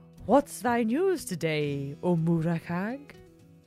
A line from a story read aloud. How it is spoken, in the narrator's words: the cat purred